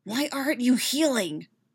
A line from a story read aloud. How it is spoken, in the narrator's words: He hisses